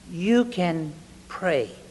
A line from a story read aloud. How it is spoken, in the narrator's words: said softly